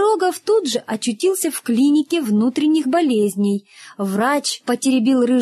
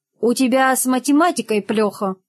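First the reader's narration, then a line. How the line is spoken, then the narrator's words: Plain. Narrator (Russian): сказал рыжеусый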